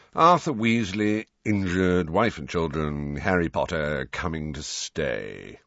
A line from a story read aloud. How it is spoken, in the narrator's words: recited Phineas in a bored voice